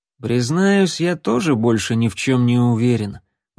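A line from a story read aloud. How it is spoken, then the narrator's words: Weary sigh. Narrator (Russian): устало вздохнул Рексволд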